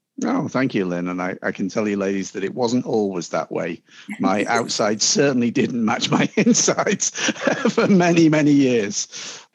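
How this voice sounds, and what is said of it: British accent. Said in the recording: “the accent doesn't hurt at all because that we are so here in the U.S., we're so enamored with the British accent.”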